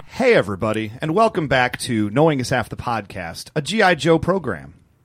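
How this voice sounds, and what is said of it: Calm NPR radio-host voice. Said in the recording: “NPR voice”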